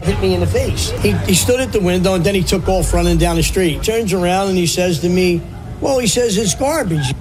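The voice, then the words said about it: Strong regional accent. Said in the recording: “there's a fun accent ahead here”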